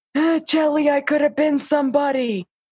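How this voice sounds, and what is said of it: Imitated New York accent. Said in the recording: “he was very New York, in case you couldn't tell by the accent.”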